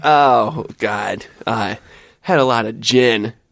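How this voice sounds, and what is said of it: Drunk-sounding character voice. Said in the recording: “Why do you sound like a drunk Tony ... Drunk Tony”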